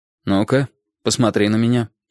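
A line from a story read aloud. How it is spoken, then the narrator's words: Dry command. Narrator (Russian): сухо велел он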